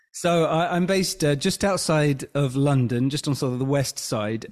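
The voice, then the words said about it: A pleasant accent. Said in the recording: “you've got a beautiful accent. I love the accent.”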